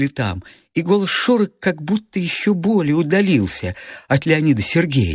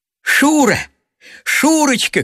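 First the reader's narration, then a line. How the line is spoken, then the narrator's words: Shouting at full voice. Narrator (Russian): кричал он во весь голос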